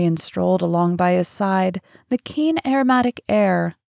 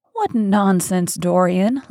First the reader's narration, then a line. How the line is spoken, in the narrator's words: laughed his companion